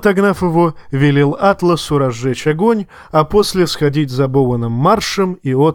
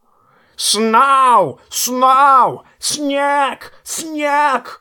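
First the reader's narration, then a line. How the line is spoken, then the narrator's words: Excited bird squawking. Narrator (Russian): орал ворон Мормонта, не менее взбудораженный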